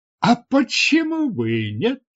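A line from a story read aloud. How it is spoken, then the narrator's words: Exclaiming. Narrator (Russian): воскликнул Дартарус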